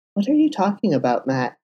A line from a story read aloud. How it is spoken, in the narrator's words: asked, struggling to keep his voice even